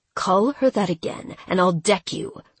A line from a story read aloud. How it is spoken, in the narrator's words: Rickle snapped, surprised at how defensive he sounded